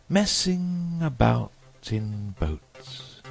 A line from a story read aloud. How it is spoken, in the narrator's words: went on dreamily